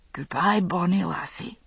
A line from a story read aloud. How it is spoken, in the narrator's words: he said softly